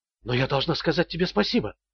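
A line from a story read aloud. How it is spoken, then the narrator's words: Whispered. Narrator (Russian): прошептала она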